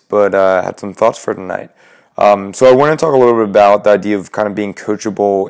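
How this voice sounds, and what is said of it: Slightly raspy voice. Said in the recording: “Sorry for a little bit of a raspy voice”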